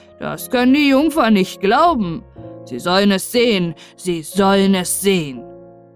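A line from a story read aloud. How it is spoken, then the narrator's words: Excited old man calling. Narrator (German): rief der Alte erregt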